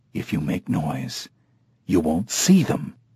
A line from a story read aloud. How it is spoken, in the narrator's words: Hager whispered